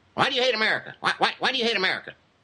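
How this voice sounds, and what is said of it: Imitates another person's voice. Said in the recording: “use my Hannity impression.”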